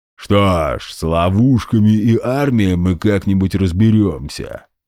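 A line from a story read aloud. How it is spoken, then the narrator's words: Booming. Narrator (Russian): прогудел генерал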